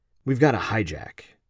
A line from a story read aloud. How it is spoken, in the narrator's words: calmly quietly said